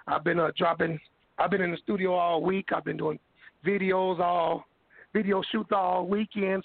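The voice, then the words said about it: Hoarse, scratchy voice. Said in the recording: “my voice is kind of hoarse. ... My voice a little, you know, extra scratchy right now.”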